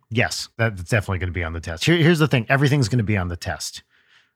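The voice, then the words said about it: British accent. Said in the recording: “in typical British fashion, of course, you can tell from my accent, we are here in the United Kingdom”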